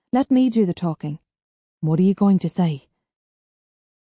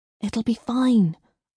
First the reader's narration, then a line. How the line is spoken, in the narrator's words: I whispered